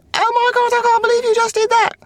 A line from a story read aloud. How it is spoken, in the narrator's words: screamed